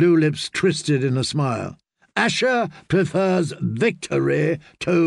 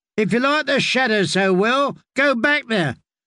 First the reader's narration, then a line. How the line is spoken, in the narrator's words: called out Pink-cheeked Carl the Maid